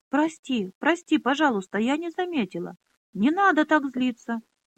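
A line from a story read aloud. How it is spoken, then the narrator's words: Shouted. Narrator (Russian): закричала Минолли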